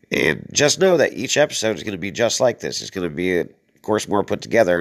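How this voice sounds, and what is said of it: Hoarse, congested voice. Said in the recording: “I'm a little hoarse right now because of this damn weather... I'm finding a head cold like crazy”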